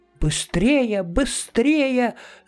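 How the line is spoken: Shouting. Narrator (Russian): закричала мама муми-тролля

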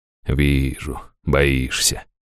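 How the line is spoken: Through gritted teeth. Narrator (Russian): процедила Лазарес

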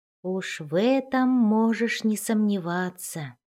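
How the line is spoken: Whisper. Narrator (Russian): прошептал Дон-Дон

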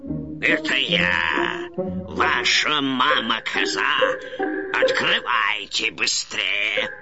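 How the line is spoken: Low voice. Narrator (Russian): проговорил своим низким голосом

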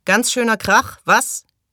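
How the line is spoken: Called out. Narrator (German): rief Wade Fraser

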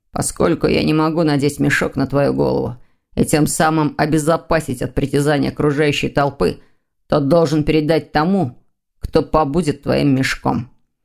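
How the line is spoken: Grumbled. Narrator (Russian): проворчал Лефевр

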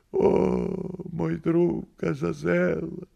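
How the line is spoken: Pained moan, bleeding. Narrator (Russian): простонал кот, истекая кровью

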